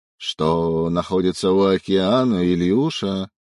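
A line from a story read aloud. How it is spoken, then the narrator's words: Growl, dead man. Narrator (Russian): прорычал мертвец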